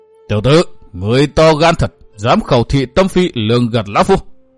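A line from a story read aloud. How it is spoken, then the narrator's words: Roaring. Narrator (Vietnamese): Hữu Cầu Tất Ứng mới gầm hét nói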